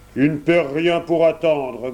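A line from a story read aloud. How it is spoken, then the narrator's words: Growling wolf. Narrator (French): grogna le loup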